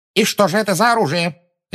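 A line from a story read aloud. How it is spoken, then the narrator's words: Sharp question. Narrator (Russian): резко спросила Амбридж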